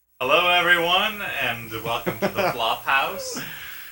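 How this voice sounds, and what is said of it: Exaggerated radio announcer voice. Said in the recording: “I'm putting my radio voice on ... He's so like, hello! Welcome to the Flophouse.”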